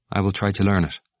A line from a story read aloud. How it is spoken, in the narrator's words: said Stephen